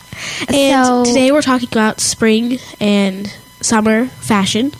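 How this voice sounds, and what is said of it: Stuffy-nosed, congested voice. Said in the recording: “I sound a little weird because I have a stuffy nose.”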